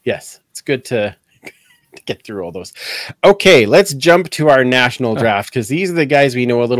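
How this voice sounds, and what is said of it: Usual voice. Nothing is said of it.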